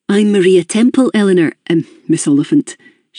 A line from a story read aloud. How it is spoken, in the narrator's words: she said